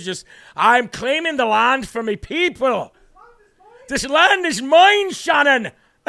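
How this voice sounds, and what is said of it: Put-on Irish accent. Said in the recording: “what is this, Far and Away with Tom Cruise? ... Except it's a Venezuelan, not an Irish accent.”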